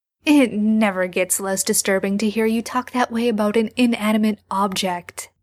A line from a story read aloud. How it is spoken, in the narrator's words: Sam laughs